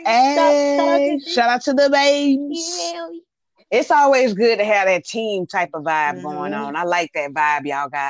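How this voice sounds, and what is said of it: Country accent. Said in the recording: “I love your accent ... I love the way you talk ... Country voice.”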